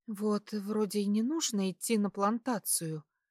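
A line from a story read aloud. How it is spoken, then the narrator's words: Whisper. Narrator (Russian): шепнула супругу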